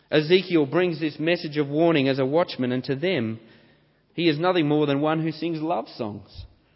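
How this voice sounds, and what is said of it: Australian accent. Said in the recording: “the Australian accent is far from beautiful or tuneful”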